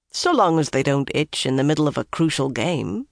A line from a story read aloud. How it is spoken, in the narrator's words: Bryn told him dryly